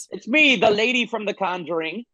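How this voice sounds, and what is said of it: Put-on old woman's voice. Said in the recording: “putting on an old voice”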